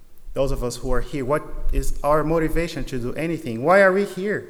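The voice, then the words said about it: Speaks with a noticeable accent. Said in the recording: “a seminarian speaking a bad accent”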